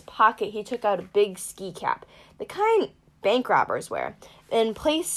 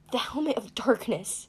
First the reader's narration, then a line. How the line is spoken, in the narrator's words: Grover gasped